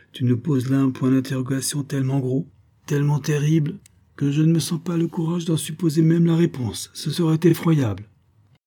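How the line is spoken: Exclaiming. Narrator (French): s'écria-t-il

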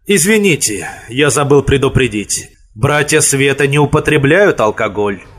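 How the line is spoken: Relieved sigh. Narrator (Russian): Он облегченно вздохнул и произнес

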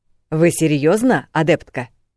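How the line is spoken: Angry question. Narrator (Russian): Почему-то зло поинтересовался Грит, тот, который командующий

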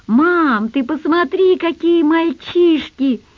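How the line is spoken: Delighted yell. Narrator (Russian): Заорал полный восторга Дениска

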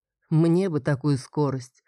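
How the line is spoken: Dreamy sigh. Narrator (Russian): вздохнул Подмерец мечтательно

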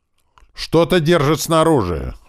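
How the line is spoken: Terrified scream. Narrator (Russian): в ужасе закричал

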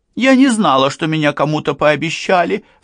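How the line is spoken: Sob. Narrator (Russian): всхлипнула Самиха

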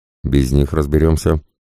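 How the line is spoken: Dismissive snort. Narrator (Russian): хмыкнул ведущий

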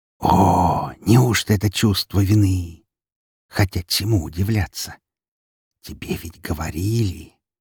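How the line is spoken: Whispering in ear. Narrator (Russian): прошептал мне в ухо голос

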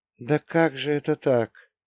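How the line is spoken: Lifeless frightened moan. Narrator (Russian): мертвым голосом простонала бледная, растерянная, напуганная мама

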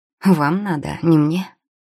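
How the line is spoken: Scoffing. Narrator (Russian): хмыкнул оборванец

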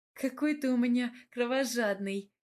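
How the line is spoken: Laughing woman. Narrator (Russian): рассмеялась я

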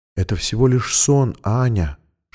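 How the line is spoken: Whispered soothingly. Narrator (Russian): шептала тетя Анны Лиза

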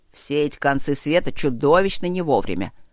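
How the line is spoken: Grumbling. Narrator (Russian): проворчал он

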